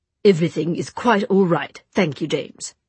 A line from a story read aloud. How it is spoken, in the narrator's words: said Gabriel, his tone clipped